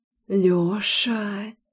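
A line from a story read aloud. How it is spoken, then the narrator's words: Insistent moan. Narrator (Russian): Настойчиво застонала я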